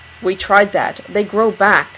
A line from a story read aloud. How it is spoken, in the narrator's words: Dean growls through his clenched teeth